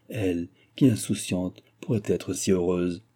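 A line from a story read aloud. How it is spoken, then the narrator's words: Sigh. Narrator (French): soupira-t-elle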